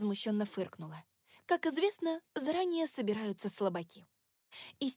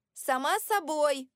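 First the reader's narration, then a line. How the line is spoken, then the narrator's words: Shouting back. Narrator (Russian): крикнула я в ответ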